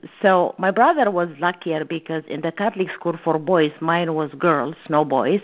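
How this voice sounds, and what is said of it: Italian-tinged accent in English. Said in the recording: “I picked up the accent of the nuns. They were all Italians.”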